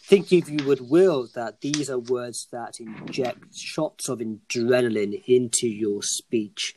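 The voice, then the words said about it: Hoarse voice, losing it from cold. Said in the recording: “losing my voice, cold”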